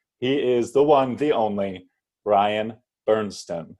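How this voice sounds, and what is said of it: Announcer voice. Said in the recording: “I was trying to give you my announcer voice to hit all the buttons.”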